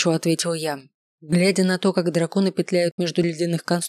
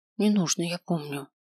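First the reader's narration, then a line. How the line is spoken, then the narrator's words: Grumbled. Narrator (Russian): буркнул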